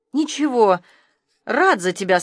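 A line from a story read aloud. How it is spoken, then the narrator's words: Said with a sigh. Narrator (Russian): сказал он, и тоже вздохнул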